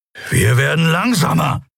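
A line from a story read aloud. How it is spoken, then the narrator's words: Snarled. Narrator (German): fauchte Keru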